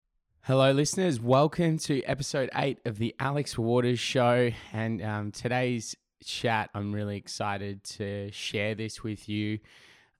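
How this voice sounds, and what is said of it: Voice still not fully recovered. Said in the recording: “You can kind of probably hear in my voice. I'm still not fully recovered, but I had laryngitis. I completely lost my voice”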